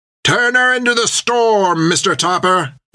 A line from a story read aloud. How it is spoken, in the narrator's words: yelled Creech